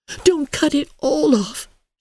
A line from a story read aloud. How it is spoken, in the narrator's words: she pleaded